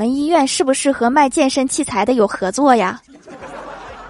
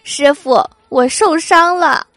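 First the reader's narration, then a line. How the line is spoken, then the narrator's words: Whimpering, tearful. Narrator (Chinese): 哭唧唧的和太二真人说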